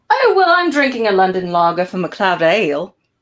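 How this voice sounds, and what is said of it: Attempted London accent, sounding Southern. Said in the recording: “That was the wrong accent, wasn't it? ... That's my London. Now I've gone Southern. ... They sounded Southern the whole time.”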